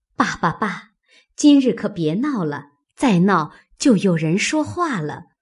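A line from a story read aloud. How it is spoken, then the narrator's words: Laughing. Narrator (Chinese): 袭人笑道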